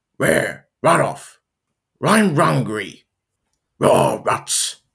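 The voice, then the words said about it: Scooby-Doo-style cartoon dog voice. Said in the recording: “you're probably going to tell how I'm going to sound as Astro ... this is my impersonation of them ... There's a few from Astro”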